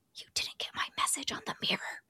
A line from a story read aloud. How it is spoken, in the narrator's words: a voice whisper